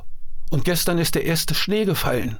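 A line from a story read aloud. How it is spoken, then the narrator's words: Woman calling out. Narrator (German): rief die Frau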